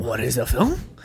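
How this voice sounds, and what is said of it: Mock French accent. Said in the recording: “your impersonation of people speaking French in Paris? ... Yeah. That's my French.”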